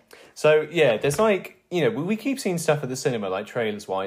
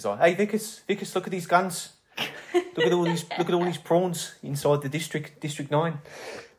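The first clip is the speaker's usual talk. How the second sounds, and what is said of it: Put-on South African accent. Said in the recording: “my only thing for like South African accents is District 9, when it's like the main character”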